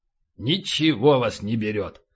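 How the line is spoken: Grumbling. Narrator (Russian): проворчал полубой

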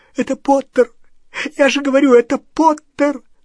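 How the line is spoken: Sobbing. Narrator (Russian): всхлипывал Ксенофилиус

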